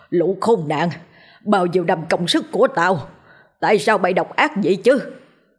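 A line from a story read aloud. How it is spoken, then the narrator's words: Angry roar. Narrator (Vietnamese): Ông ta tức giận gầm lên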